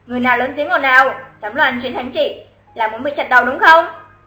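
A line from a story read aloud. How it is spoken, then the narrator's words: Hurried question. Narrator (Vietnamese): Quan trông coi cổng thành vội hỏi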